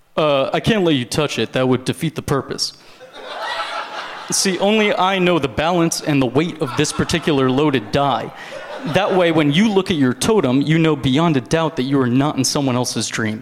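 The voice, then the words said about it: Joseph Gordon-Levitt impression from Inception. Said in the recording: “This is my impression. ... It's the one impression I show off all the time. This is Joseph Gordon-Levitt in Inception.”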